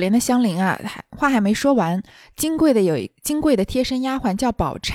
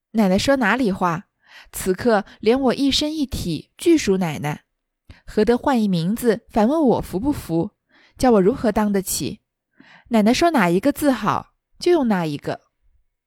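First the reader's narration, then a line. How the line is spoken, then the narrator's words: Hasty, laughing. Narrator (Chinese): 香菱忙笑道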